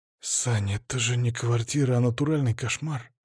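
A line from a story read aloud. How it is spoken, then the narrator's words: Quiet, gentle. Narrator (Russian): тихо сказал Паша, чтобы не обидеть старушку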